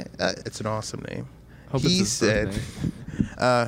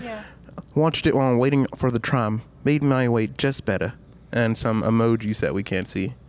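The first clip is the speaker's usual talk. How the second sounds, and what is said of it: Put-on British accent. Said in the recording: “I'm going to read it out in a British accent.”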